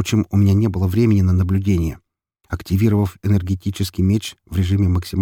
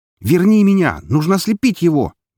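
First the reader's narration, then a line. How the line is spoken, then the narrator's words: Shouted. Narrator (Russian): безуспешно закричал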